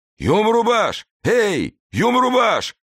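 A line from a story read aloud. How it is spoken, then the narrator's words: Powerful voice yelling nearby. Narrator (Russian): орал где-то неподалеку мощный голос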